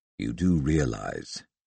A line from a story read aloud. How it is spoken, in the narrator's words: he rumbled